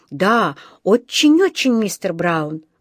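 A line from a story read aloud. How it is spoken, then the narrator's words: Exclaimed. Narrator (Russian): воскликнул Паддингтон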